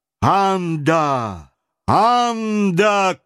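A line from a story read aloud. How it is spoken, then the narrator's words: Thunderous shout. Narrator (Russian): крикнул громовым голосом Талькав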